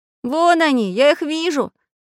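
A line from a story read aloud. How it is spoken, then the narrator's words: Shouting. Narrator (Russian): закричал Прутик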